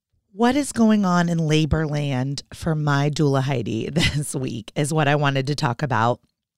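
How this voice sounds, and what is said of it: Sick voice, sinus and throat affected. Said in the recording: “I am super sick. ... I don't know how my voice sounds ... some crazy sinus throat thing going on ... why I sound a little crazy today”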